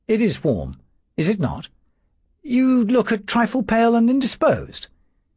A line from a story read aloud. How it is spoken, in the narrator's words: said Philip, very kindly